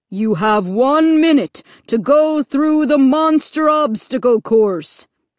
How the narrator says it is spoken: the voice thundered

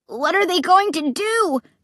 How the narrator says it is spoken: Clay cried, his features twisted in terror

